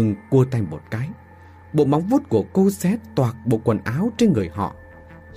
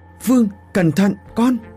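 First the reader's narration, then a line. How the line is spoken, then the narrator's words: Woman screaming loudly. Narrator (Vietnamese): Bà Thơ ... thét thật lớn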